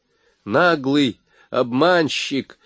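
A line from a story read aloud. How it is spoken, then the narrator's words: Shouted. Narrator (Russian): выкрикнул он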